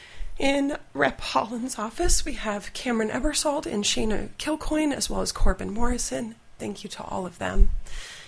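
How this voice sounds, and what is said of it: Emotional, choked-up voice. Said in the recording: “this is why I'm getting choked up.”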